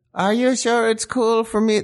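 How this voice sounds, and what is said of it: Imitates another person's voice. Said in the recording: “That's my Yoko Ono impression. ... She sounds like Bjork.”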